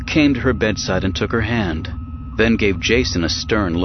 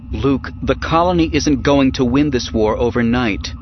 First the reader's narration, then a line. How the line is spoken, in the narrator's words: Mara said